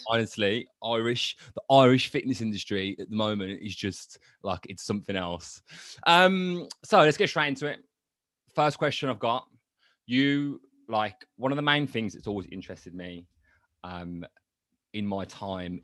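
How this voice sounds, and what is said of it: Birmingham (Brummie) English accent. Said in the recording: “you're a Brummie ... The one person who's got a worse accent than you”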